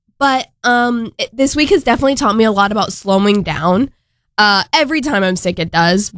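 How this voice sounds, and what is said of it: Congested, slightly off voice. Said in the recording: “I'm a little bit congested. ... My voice is kind of off”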